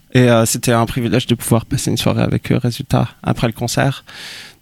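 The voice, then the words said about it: French spoken with English accent. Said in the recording (French): “j'adore entendre le mot privilège avec un accent anglais. Je trouve ça fait très royal.”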